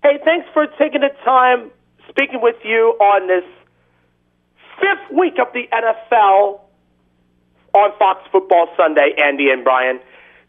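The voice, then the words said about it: Caller's noticeable accent. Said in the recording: “It still sounds like there's an L with your accent.”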